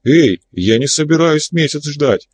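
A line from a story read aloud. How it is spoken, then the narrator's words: Angry exclamation. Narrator (Russian): гневно воскликнула Мария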